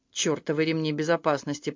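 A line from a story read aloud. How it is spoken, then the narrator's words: Muttered. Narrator (Russian): пробормотала Шарон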